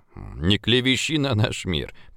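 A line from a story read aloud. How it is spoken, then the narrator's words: Grumbled. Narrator (Russian): проворчал Пургин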